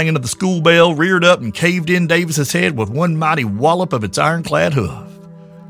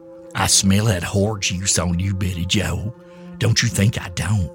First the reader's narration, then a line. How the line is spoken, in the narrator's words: she'd snarl